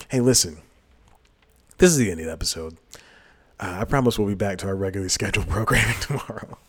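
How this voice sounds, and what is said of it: Raspy voice. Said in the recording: “Why am I back to the raspy voice? It's so strange.”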